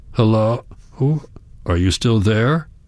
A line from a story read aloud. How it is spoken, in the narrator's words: He sighs